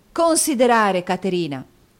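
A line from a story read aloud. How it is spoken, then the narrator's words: Furious exclamation. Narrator (Italian): esclamò Nicola nell'impeto di collera da cui era assalito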